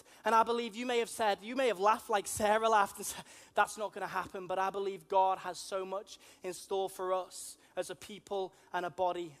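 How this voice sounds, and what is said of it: Liverpool Scouse accent. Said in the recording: “I'm from Liverpool. You may be able to tell that from my strange accents ... A lot of people call me a plastic Scouser ... So maybe not a real Scouser”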